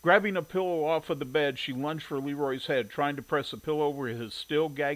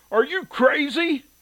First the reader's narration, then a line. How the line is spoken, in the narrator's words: Leroy asked with a gasp